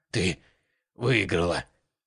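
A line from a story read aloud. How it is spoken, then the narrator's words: Hoarse croak. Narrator (Russian): прохрипела Аврора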